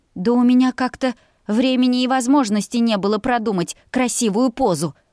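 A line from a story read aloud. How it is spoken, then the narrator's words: Babbling. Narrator (Russian): пролепетала я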